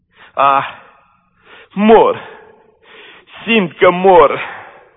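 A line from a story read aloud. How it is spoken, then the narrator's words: Groaning. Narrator (Romanian): spunea gemând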